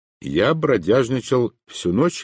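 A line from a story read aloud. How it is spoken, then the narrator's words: Plain. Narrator (Russian): ответил я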